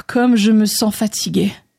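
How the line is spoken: Sighing. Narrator (French): soupira André

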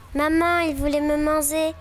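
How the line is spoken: Chick's cry. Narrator (French): cria le poussin

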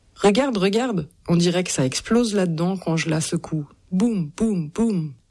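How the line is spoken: Plain. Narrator (French): dit Flick

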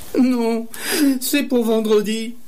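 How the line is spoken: Long moaning. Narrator (French): Et elle gémissait longuement

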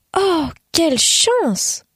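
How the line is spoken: Delighted exclamation. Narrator (French): s'exclama-t-elle, les yeux pétillants

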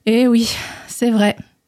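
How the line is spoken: Sighed. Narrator (French): soupira le chasseur

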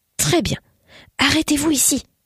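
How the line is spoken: Breathed softly. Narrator (French): souffla Hieronymus

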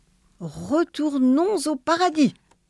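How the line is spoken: Exclaimed. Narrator (French): s'écria le bon Dieu

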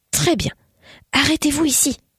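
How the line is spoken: Breathed softly. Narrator (French): souffla Hieronymus

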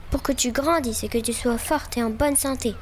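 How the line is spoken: Plain. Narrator (French): répondit Zorba

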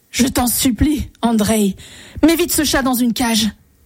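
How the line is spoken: Terrified exclamation. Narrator (French): s'écria le tsar, rempli d'épouvante

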